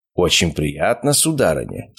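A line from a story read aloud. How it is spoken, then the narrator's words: Formal respectful tone. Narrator (Russian): сказал призрак официально уважительным тоном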